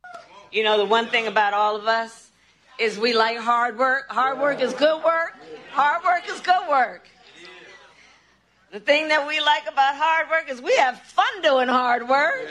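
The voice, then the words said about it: Kamala Harris putting on Southern accent. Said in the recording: “today's new Kamala accent ... Is that like the Southern?”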